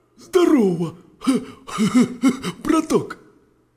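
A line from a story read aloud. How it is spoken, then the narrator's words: Hoarse wheeze. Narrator (Russian): прохрипел волк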